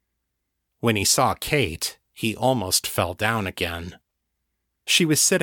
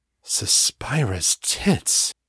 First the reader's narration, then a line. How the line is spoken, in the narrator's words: breathed